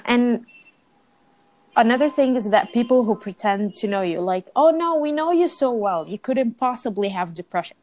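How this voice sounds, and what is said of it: Non-native English accent. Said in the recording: “I noticed you have an accent.”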